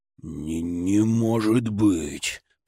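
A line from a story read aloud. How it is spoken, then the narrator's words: Growling. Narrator (Russian): прорычал Мамору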